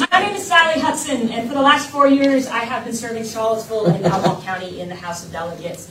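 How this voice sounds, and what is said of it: Projected teacher voice. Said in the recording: “Can I use my teacher voice? Can you hear me all right?”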